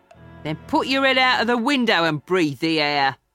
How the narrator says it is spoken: Sykes told her with a laugh

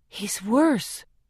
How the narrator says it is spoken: I whisper

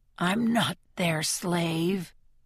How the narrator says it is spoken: the man mutters

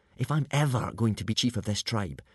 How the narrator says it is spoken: whispered Hiccup to Fishlegs

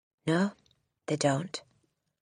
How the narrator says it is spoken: Miss Honey said rather stiffly

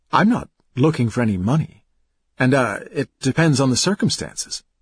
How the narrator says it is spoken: he stammered

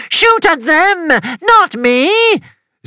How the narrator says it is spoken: Zelia cried out

